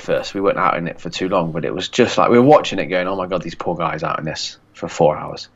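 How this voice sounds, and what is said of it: Nasal, congested-sounding voice. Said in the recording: “why I sound a bit nasally and a bit like I've got a cold ... it sets off my hay fever”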